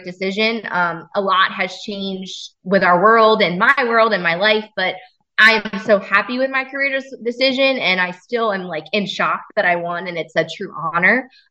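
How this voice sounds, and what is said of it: Tearful, emotional voice. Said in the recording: “I'm getting teary-eyed talking to you about it ... I'm sitting here crying to you”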